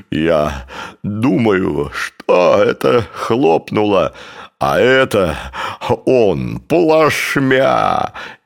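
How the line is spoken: Convulsive, bursting with laughter. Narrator (Russian): И вместе с последним судорожно выдавленным словом новый взрыв хохота потрясал весь его состав

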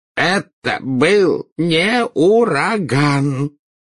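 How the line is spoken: Unhappy voice. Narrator (Russian): проговорил Фадж несчастным голосом

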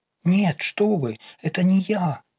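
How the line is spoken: Frightened mumbling. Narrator (Russian): испуганно забормотала Настя

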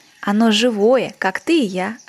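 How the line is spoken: Plain. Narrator (Russian): ответил лис

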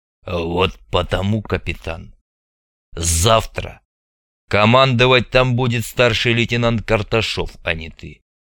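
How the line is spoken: Angry, through gritted teeth. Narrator (Russian): зло процедил Хворостин

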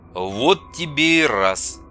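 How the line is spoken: Surprised mutter. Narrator (Russian): удивленно пробормотал Андрей

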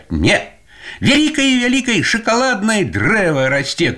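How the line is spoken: Shouted. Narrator (Belarusian): крыкнула Іра

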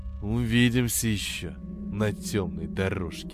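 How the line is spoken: Hissed. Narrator (Russian): прошипел он

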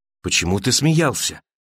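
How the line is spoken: Woman's quiet question. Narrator (Russian): тихо спросила женщина

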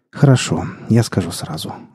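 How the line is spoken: Sighing. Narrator (Russian): вздохнул Лешка

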